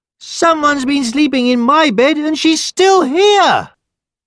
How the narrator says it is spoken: the baby bear cried

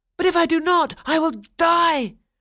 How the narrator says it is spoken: Franz cried

